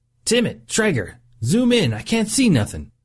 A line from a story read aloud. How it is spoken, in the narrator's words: Cox yelled over the silence